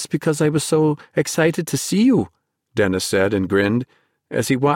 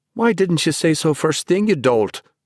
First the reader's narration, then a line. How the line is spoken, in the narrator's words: Ben exclaimed